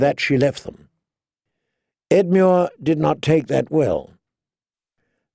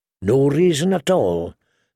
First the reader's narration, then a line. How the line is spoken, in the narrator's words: said Edmure in a glum tone